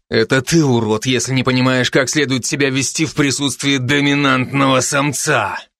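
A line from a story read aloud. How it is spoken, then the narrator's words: Menacing through gritted teeth. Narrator (Russian): угрожающе процедил братец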